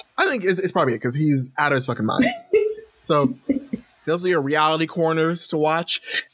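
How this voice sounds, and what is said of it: Usual voice. Nothing is said of it.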